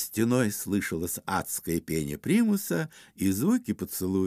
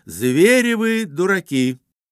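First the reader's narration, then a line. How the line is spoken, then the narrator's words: Loud woman's voice. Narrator (Russian): Колина жена громко сказала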